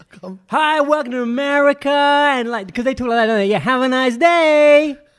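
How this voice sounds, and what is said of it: Poor put-on American accent. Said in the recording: “I just can't do the whole American accent at the moment ... when you did, you failed”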